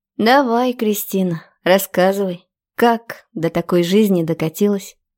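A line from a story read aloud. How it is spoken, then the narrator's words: Weary sigh. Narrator (Russian): Устало вздохнула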